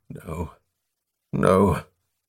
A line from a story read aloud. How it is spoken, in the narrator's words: He was muttering